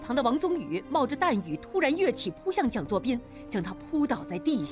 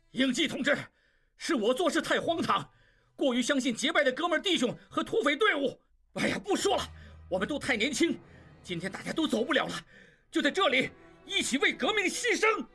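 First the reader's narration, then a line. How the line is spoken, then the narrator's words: Desperate, anguished shout. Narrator (Chinese): 蒋作斌血红着眼睛冲他喊道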